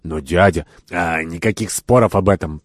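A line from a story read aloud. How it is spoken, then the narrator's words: Grumbling, getting heated. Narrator (Russian): проворчал Кирабан, начиная горячиться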